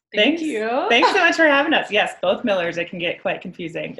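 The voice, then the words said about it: Midwestern twang. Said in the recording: “we're both from the Midwest, so we've got like a Midwestern twang”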